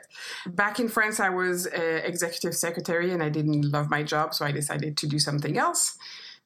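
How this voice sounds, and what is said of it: French accent in English. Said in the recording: “So I'm actually French. This is why I have this accent. Most people think I'm German, but no, I am French.”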